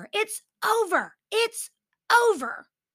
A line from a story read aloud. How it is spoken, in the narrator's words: he's screaming at Clara